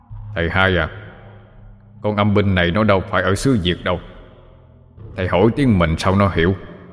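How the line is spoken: Deep hoarse voice. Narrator (Vietnamese): Giọng của thần đằng ồm ồm cất lên

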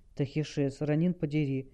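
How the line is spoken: Moaning. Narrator (Russian): Хел застонала

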